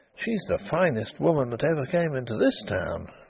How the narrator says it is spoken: he murmured

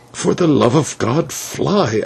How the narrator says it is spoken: I whispered

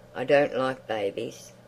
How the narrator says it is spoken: said to the boy coldly

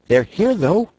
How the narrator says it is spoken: cried Scraps, dancing up to them

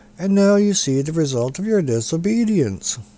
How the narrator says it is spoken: grumbled Calico

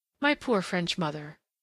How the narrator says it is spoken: whimsically the girl sighed

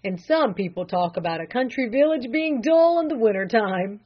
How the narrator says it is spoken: he chuckled

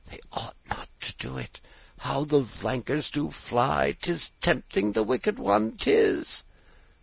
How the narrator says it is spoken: uneasily rocking himself as he murmured

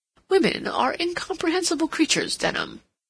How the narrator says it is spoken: exclaimed

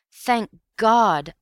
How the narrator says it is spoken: I cried

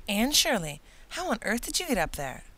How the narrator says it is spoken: he exclaimed

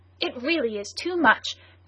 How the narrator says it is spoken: cried Michael Arden's adversary

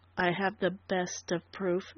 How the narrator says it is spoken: Dundee said quietly

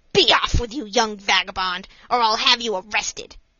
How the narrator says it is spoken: The salesman … exclaimed angrily

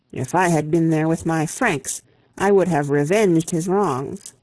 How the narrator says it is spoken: exclaimed

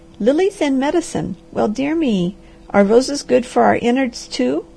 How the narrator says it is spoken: the harvester did laugh

